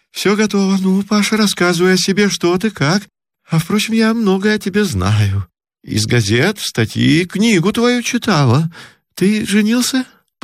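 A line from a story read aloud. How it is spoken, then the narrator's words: Hurried question. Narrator (Russian): поспешно спросила она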